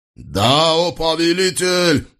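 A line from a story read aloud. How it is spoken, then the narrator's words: Distant shout. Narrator (Russian): прокричали в ответ с того берега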